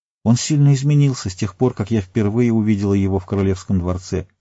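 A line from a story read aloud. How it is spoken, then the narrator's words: Plain. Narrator (Russian): сказал Йовин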